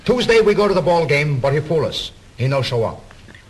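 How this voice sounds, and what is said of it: Put-on Italian accent. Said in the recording (Portuguese): “sotaque ... italiano”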